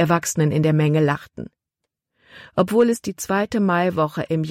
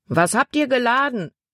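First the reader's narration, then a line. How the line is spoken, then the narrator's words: Man calling out. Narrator (German): rief ein Mann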